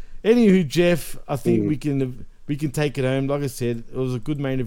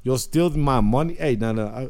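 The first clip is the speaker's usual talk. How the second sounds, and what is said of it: Weird put-on Scottish-sounding accent. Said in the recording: “I just did a weird accent then... I sound Scottish there”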